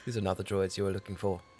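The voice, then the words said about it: Put-on Scottish accent, actor impression. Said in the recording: “That was like an Ewan McGregor fucking accent and everything. ... And he's Scottish. ... I kind of sound like him right now.”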